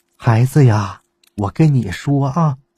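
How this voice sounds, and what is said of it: Quiet, hushed voice. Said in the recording (Chinese): “小声跟我说”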